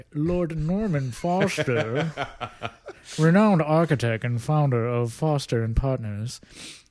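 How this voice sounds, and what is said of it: Poor, snooty English accent. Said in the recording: “That was really not a good English accent there. ... It was a good snooty accent, though.”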